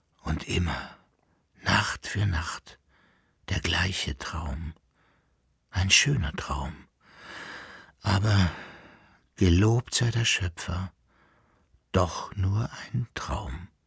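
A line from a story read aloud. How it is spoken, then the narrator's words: Whispered. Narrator (German): flüsterte sie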